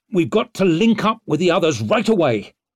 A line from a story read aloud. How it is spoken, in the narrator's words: he snapped